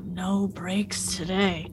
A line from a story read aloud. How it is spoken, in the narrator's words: Elaine just kind of like swears under her breath